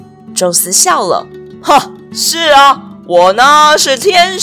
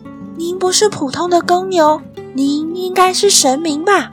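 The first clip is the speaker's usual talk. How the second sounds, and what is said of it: Quiet, soft-spoken question. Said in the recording (Chinese): “小声地问”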